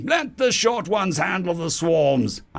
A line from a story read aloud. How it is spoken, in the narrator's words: I bellowed out